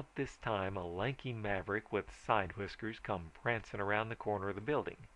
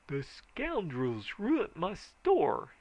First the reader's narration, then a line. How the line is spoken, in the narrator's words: he howled